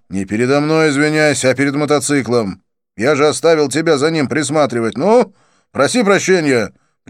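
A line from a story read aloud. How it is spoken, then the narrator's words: Sharp scolding. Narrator (Russian): прикрикнул я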